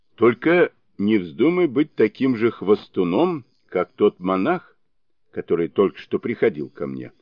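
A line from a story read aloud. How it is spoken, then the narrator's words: Old man, stern warning. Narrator (Russian): строго предупредил старец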